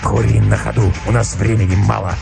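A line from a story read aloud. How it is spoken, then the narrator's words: Curt hoarse answer. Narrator (Russian): ответил волк отрывисто и хрипло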